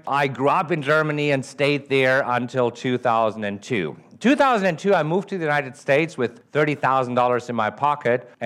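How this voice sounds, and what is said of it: German accent. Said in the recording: “Originally, I'm from Germany. That's the accent that you're hearing.”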